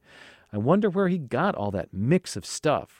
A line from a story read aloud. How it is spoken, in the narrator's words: Ruth answered, laughing